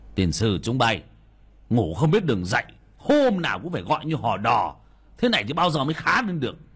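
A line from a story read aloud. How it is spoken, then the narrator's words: Old man shouting. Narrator (Vietnamese): ông quát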